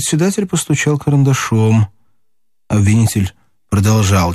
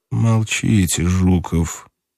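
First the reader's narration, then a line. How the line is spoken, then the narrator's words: Through gritted teeth. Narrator (Russian): сказал Иван Ильич сквозь зубы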